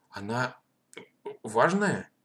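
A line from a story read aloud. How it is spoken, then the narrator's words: Slightly stammering question. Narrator (Russian): немножко заикаясь, спросил Матвей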